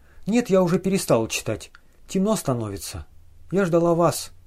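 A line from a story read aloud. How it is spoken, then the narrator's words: Soft, friendly, trusting. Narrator (Russian): мягко, дружески, доверчиво говорила она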